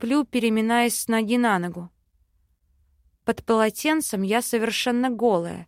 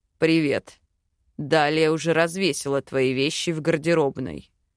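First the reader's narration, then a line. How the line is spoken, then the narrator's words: Calm remark. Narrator (Russian): спокойно подмечает Хак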